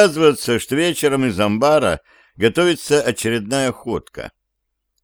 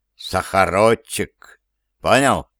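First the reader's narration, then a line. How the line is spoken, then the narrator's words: Solemn, after pause. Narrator (Russian): выдерживает паузу и торжественно произносит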